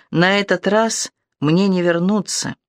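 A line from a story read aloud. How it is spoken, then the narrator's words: Quiet repetition. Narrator (Russian): он тихо повторил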